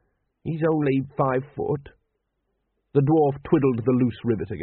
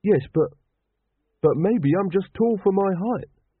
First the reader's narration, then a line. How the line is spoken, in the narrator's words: said Carrot desperately